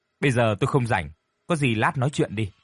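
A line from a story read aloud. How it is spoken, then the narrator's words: Cold. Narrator (Vietnamese): Vẫn thái độ lạnh lùng ấy, cô lên tiếng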